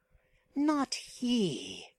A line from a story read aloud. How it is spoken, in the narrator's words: grinned the Stygian savagely